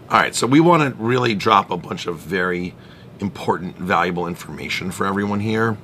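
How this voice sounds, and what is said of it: Scratchy, hoarse voice. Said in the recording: “I'm finishing up a round of laryngitis. I apologize if my voice is a little... Scratchy... A little scratchy, but it sounds okay.”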